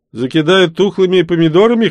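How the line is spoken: Snorting. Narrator (Russian): хмыкнул

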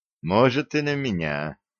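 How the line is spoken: Relieved sigh. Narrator (Russian): облегченно вздохнул Середин

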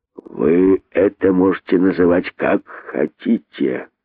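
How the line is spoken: Contemptuous hiss. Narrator (Russian): презрительно прошипел удав

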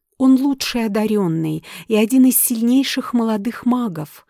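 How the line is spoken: Plain. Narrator (Russian): ответила Зоя

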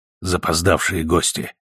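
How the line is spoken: Whisper. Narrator (Russian): шепнул Миллер

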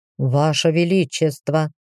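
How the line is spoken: Mumbling elf. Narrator (Russian): промямлил эльф

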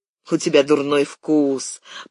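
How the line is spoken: Angry reply. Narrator (Russian): зло ответила она

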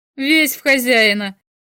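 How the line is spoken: Laughing. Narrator (Russian): засмеялся Штарк

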